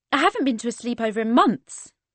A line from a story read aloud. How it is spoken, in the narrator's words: she exclaimed